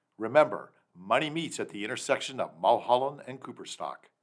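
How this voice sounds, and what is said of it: Smooth radio DJ voice. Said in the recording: “that incredible DJ voice”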